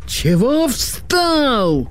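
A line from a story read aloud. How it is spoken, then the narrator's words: Bellowing at someone. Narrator (Russian): заорал сержант на Кешу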